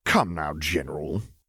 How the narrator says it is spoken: he sneered, tone condescending enough that Veers had the vague thought even a newborn would be offended by it

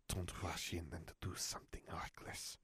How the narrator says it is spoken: Fleur hissed

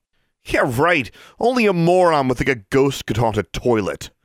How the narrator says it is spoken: she scoffed

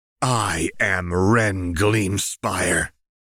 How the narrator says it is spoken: she hissed past that gash of a smile

